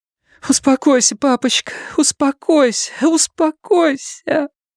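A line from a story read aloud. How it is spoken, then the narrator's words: Sobbing. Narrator (Russian): Фрэнни снова разрыдалась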